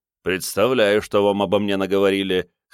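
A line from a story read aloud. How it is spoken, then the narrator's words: Snorting. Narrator (Russian): хмыкнул Вайтан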